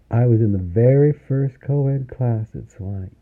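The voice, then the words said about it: Deep, rich Southern accent. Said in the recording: “Deep, rich Southern accent.”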